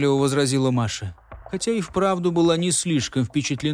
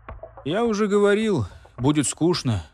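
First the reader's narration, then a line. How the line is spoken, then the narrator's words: Sighing. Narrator (Russian): вздохнул Артур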